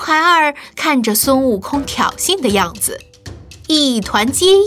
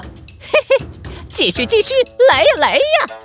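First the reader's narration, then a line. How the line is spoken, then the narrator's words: Cheerful chuckling. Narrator (Chinese): 孙悟空笑呵呵地说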